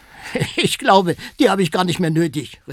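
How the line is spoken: Laughing call. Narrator (German): rief Jorge lachend

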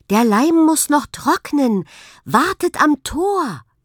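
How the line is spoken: Called out. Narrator (German): rief zu

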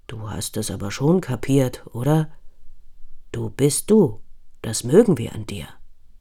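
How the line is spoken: Surprisingly soft grumble. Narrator (German): brummelt Pummel mit erstaunlich leiser Stimme

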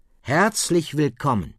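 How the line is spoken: Plain. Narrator (German): sagt der Lehrer

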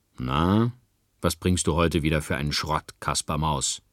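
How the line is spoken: Unfriendly growl. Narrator (German): knurrte er unfreundlich

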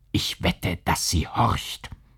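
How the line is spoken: Whisper. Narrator (German): Er unterbrach sich, flüsterte

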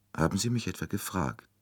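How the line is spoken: Dry retort. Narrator (German): erwiderte die Prinzessin trocken

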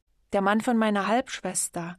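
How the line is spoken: Plain. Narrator (German): sagte Viktor

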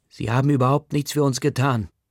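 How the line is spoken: Father shouting. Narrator (German): schreit Omvirs Bügelwaller-Papa

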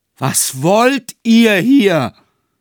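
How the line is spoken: Shouted. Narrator (German): schrie K

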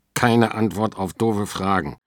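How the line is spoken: Growling at sister. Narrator (German): knurrt er seine Schwester an

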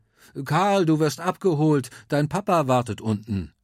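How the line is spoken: Calling out. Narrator (German): Opa Heinz ruft

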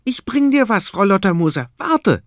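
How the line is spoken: Called out. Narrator (German): ruft er

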